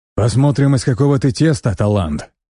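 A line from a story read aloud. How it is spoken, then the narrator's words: Bearded man's grunt. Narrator (Russian): хмыкнул бородатый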